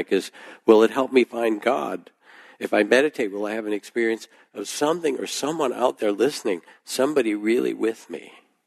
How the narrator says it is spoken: said, her voice rising in a crescendo that bordered on real panic

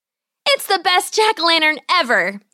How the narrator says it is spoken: exclaimed

